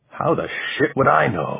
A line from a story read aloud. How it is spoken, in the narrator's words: Ramon croaked, his voice rasping in his dry throat